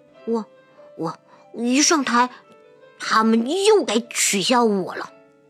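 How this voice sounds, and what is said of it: Quiet, timid stammering voice. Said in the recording (Chinese): “结实低着头 小声说”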